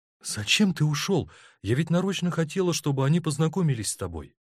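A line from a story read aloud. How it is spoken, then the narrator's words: Agitated, excited. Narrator (Russian): Тоня взволнованно сказала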